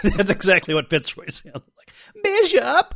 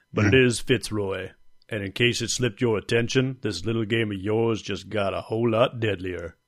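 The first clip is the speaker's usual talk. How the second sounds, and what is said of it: Deep voice, put-on southern accent. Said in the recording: “a deep ... Give him a little bit of a southern accent”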